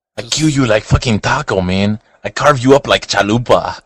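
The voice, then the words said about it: Exaggerated put-on Mexican accent. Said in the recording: “My Mexican accent is ridiculous.”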